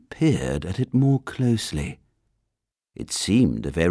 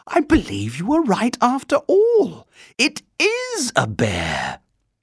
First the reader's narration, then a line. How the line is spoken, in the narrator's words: she exclaimed